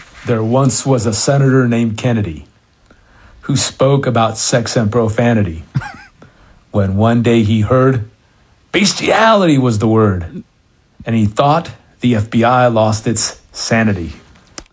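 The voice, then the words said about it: Senator Kennedy impression. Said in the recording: “this listener has his own Senator Kennedy... a guy doing an impression”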